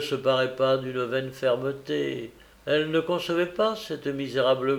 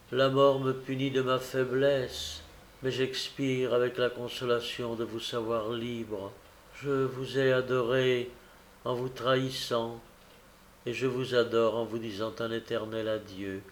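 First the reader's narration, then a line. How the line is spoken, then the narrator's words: Faltering, fading voice. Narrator (French): dit-elle d'une voix tombante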